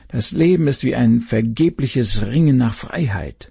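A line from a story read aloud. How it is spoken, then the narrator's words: Groaning waves. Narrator (German): stöhnten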